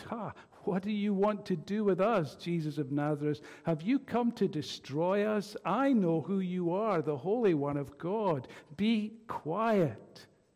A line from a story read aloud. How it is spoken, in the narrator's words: said Jesus sternly